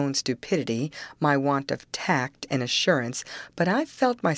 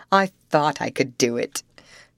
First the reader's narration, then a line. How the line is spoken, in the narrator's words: she began to laugh and muttered to herself